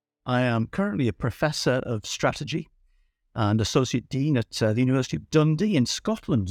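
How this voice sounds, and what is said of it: Newcastle (Geordie) English accent. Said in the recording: “I originate from Newcastle, as you can probably tell from the accent.”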